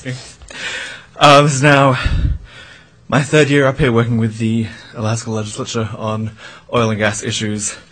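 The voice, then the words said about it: Out of breath. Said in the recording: “I'm a little out of breath from the stairs.”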